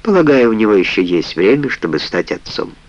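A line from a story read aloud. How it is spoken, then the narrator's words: Dry remark. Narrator (Russian): сухо заметила Сар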